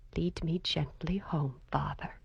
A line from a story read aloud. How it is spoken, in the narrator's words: she added softly